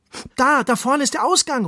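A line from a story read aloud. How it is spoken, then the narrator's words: Calling out. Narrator (German): ruft Ronny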